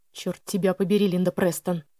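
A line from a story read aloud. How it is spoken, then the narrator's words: Muttered through clenched teeth. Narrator (Russian): пробормотал Элли сквозь стиснутые зубы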